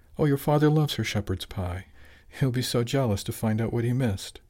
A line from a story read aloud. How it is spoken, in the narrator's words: replied with a sad little giggle